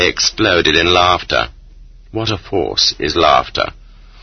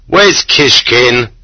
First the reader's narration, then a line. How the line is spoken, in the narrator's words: they shouted